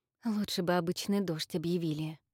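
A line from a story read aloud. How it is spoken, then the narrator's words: Mumble. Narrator (Russian): пробормотала Инна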